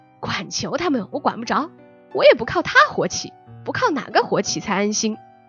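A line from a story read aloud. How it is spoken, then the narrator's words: Laughing. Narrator (Chinese): 又笑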